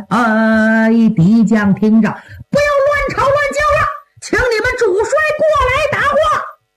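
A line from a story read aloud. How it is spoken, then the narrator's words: Full-voiced shout. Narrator (Chinese): 南唐兵放开嗓音高喊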